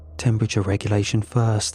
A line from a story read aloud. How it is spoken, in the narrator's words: Walker said, her voice trembling but steady